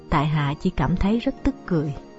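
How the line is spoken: Pleased smiling reply. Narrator (Vietnamese): Lục Tiểu Phụng trong lòng đang khoan khoái thật, chàng mỉm cười đáp

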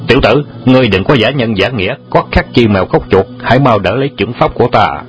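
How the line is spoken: Loud shout. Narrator (Vietnamese): Vạn Vân Hùng đại sư quát lớn

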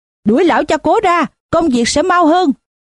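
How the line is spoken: Someone shouting. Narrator (Vietnamese): có người hét

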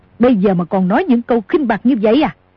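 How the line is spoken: Angry shout. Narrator (Vietnamese): tức giận quát

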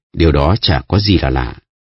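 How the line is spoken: Plain. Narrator (Vietnamese): Sato Reno nói

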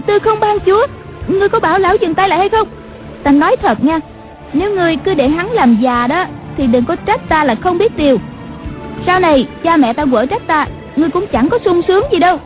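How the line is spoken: Frightened cry. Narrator (Vietnamese): Nàng giật mình kinh hãi la lên

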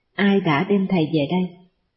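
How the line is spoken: Very quiet question. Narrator (Vietnamese): Bà hỏi rất khẽ

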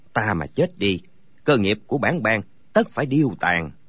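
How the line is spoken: Muttering. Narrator (Vietnamese): Có người lẩm bẩm

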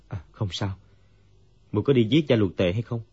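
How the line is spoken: Dazed sigh. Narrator (Vietnamese): Dương Quá như tỉnh mộng, thở dài nói

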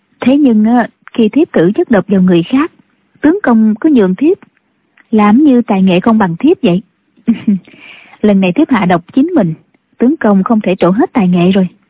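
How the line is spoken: Smiling. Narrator (Vietnamese): Thiếu phụ mỉm cười nói

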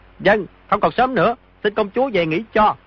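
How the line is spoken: Raised voice. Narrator (Vietnamese): Di Tiểu Bảo cao giọng nói

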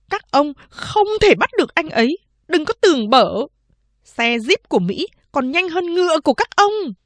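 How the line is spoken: Limp hissing shriek. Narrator (Vietnamese): Chị cả Lai Đệ ngồi nhũn ra trên ghế, rít lên

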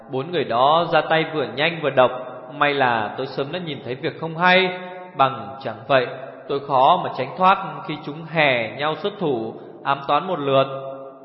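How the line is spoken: Sighing. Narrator (Vietnamese): Tô Dung Dung thở dài

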